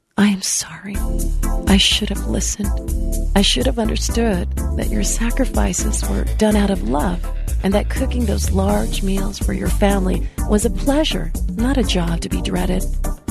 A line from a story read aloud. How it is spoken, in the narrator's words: whispered to her mother